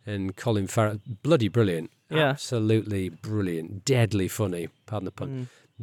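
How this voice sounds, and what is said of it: Usual voice. Nothing is said of it.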